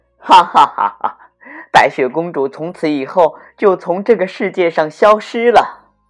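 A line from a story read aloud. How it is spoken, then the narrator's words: Wicked laughter. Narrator (Chinese): 坏心的王后……大笑着说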